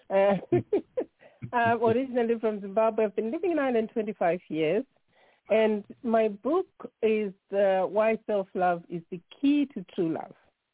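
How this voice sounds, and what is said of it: Zimbabwean accent, not Irish. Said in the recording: “I'm originally from Zimbabwe. You can tell my accent does not sound Irish.”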